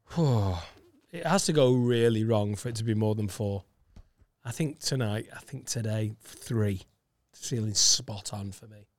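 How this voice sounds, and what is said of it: Croaky voice. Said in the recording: “you're sounding very croaky there”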